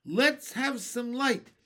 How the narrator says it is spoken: shouted the centipede

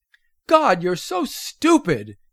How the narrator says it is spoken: screamed at her

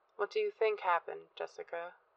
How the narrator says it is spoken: asked in a somber voice

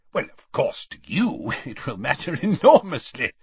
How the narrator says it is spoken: said Scrimgeour with a laugh

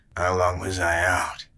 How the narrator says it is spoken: He slurred

